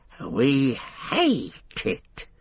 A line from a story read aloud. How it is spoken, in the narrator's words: he hissed